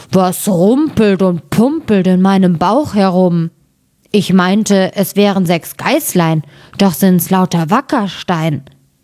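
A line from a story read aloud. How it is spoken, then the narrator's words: Called out. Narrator (German): rief er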